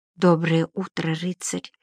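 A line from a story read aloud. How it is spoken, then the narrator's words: Whispered. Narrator (Russian): прошептала девушка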